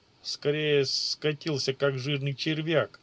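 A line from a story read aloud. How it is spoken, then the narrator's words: Chuckling laugh. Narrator (Russian): хохотнул Исаджи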